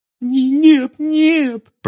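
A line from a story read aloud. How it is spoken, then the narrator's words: Sobbing. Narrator (Russian): прорыдала Гермиона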